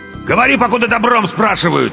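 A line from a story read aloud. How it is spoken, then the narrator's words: Barked. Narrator (Russian): рявкнул второй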